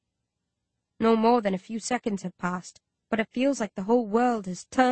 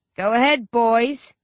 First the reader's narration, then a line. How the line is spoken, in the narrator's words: he roars at the soldiers and clanners